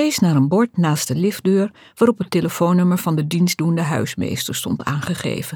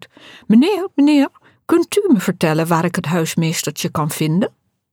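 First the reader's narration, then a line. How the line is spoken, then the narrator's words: High posh voice. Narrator (Dutch): Humbert ... vroeg met hoog bekakt stemgeluid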